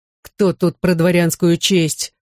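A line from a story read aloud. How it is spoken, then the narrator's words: Growl. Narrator (Russian): прорычал Егупов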